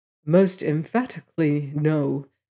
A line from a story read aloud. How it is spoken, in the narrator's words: he replied quietly